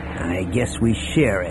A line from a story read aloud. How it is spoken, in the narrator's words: Han said in a rankled tone